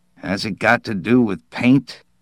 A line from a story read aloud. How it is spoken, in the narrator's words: Pesbroke muttered, half-humorously, half-seriously